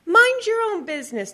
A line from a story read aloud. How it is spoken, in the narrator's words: the woman snapped